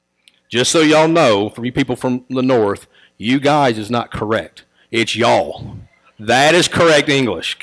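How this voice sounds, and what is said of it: Southern US country accent. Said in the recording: “my country, Louisiana redneck accent,”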